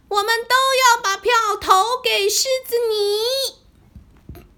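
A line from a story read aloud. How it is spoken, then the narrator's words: Loud hopeful chorus. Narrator (Chinese): 动物们满怀希望，一起大声的说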